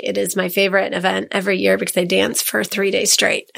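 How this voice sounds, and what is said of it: Hoarse, strained voice. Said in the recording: “lost my voice. I'm actually surprised I have a voice today. So this is an improvement, even though it doesn't sound like it.”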